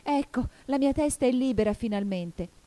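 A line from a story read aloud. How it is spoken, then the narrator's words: Joyful exclamation. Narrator (Italian): esclamò Alice gioiosa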